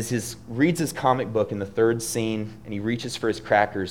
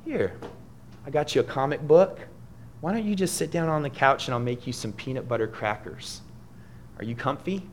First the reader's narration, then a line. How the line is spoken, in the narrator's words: his mother she says calmly